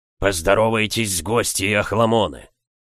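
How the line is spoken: Grumbling. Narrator (Russian): проворчал Сумариус

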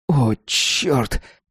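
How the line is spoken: Groaning. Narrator (Russian): простонал Джим

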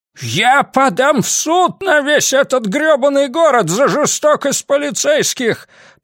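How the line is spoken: Wailing yell. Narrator (Russian): провопил Сэм

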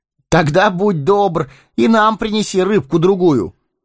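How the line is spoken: Calling after someone. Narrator (Russian): крикнул ему вслед Фродо

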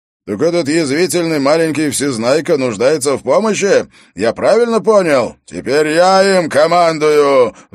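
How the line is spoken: Roaring. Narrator (Russian): взревел он

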